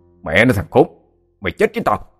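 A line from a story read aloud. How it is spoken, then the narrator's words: Big man's loud shout. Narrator (Vietnamese): Một tên to con trong bọn còn quát lớn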